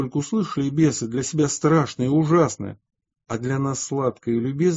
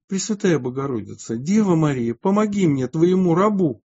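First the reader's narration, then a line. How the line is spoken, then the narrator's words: Exclaiming. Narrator (Russian): он так воскликнул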